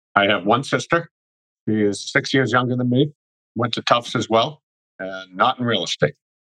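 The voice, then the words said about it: Boston accent. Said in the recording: “you are from the New England area ... the Boston accent ... Boston area accent”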